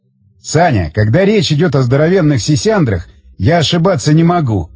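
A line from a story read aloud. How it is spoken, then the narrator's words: Roaring laughter. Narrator (Russian): захохотал Тигран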